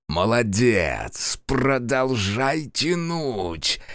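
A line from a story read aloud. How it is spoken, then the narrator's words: Loud whisper. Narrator (Russian): громко зашептал Фергус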